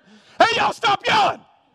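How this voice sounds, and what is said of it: Yelling. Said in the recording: “I'm yelling at my kids to stop yelling ... I'm like trying to yell at them”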